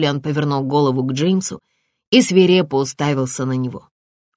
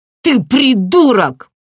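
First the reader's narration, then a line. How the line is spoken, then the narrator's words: Shouted. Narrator (Russian): выкрикнул Джулиан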